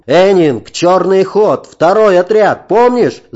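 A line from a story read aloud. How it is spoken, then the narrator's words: Shouting after someone. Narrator (Russian): закричал мне вслед Ролон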